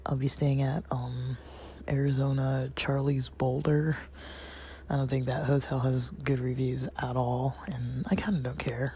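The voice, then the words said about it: Raspy, dry-throated voice. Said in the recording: “you can probably hear my voice is pretty raspy ... I've had a little bit of dry throat, cough, clearing my throat”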